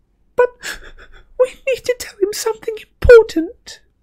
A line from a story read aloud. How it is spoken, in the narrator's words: wailed Hermione, holding her hands more tightly over her face